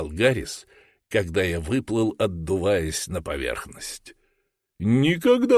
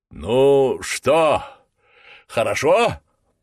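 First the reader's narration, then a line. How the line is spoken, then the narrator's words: Shouting. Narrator (Russian): прокричал Джордж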